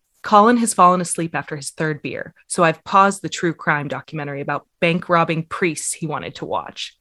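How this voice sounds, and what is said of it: American accent. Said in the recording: “I hate my American accent sometimes when I'm trying to say these like very British or Scottish things. I just feel like I'm flattening it”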